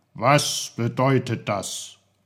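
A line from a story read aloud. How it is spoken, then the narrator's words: Very stern question. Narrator (German): fragte Onkel Pfefferkorn mit seiner strengsten Stimme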